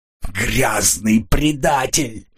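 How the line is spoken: Growling. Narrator (Russian): прорычала она

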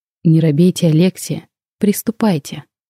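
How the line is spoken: Gentle, encouraging. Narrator (Russian): мягко сказал профессор

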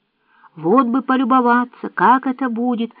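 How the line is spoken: Exclaimed. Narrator (Russian): воскликнул Джейк

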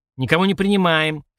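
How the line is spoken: Angry warning. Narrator (Russian): сердито предупреждает Бука

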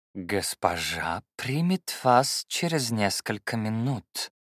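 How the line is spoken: Velvety low voice. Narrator (Russian): бархатным низким голосом сказал он

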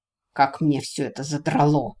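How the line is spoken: Angry hiss. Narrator (Russian): прошипел Корвин

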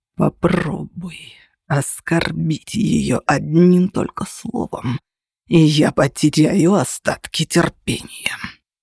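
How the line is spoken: Growl. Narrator (Russian): прорычал он

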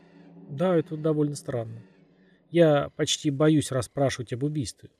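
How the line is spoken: Plain. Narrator (Russian): сказала Лурд

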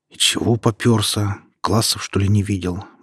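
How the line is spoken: Muttering under breath. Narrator (Russian): буркнул я себе под нос

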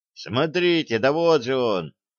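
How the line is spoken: Unfamiliar voice exclaiming. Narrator (Russian): воскликнул кто-то, чьего голоса Слава не узнал

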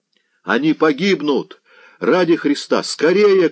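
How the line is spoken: Heart-rending shout. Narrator (Russian): кричал душераздирающий Заглоба

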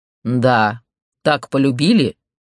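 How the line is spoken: Growl. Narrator (Russian): рыкнул Александр

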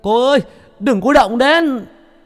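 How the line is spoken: Shouting. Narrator (Vietnamese): A Chiều hét lên

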